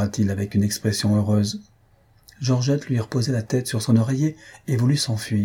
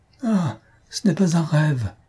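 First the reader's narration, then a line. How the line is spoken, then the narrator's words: Exclaiming. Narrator (French): s'écria-t-il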